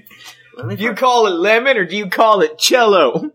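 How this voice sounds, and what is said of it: Put-on Southern US accent. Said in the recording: “Why are we giving it a southern accent?”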